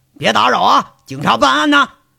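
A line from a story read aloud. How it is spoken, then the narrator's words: Shouting. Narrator (Chinese): 光头骡子喊着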